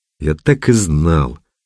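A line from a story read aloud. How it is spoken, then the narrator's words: Annoyed drawl. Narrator (Russian): Раздосадованно протянул водитель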